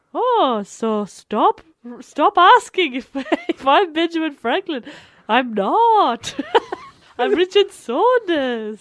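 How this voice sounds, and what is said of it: Slightly Welsh-sounding character voice. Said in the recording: “a little Welsh ... It is a bit Welsh ... ghost Benjamin Franklin”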